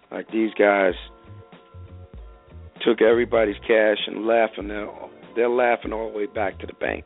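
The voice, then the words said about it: Hoarse, strained voice. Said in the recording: “I'm about losing my voice here. ... Getting over this cold.”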